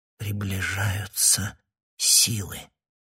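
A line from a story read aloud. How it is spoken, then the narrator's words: Barely audible. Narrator (Russian): молвила она еле слышно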